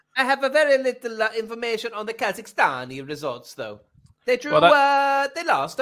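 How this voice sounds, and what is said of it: Foreign Kazakh-influenced English accent. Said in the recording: “my wife is from Kazakhstan... And I pick up the accent.”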